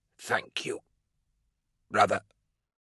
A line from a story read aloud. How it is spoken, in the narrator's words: Voke rasped